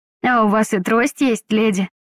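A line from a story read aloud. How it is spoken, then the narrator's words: Naive surprise. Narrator (Russian): Наивно удивился Лиам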